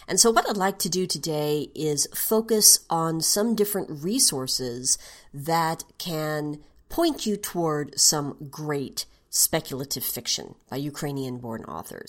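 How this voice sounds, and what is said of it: Mixed regional American accent. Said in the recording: “speaking my flavored by multiple regional U.S. accents English”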